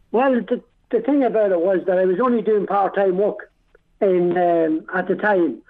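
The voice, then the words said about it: Irish Dundalk accent. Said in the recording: “You're from Dundalk. You're a native of Dundalk. ... you still have the accent. You never lost it. You never, ever lost it.”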